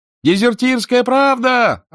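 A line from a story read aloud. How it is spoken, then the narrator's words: Yelling vendor. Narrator (Russian): орал продавец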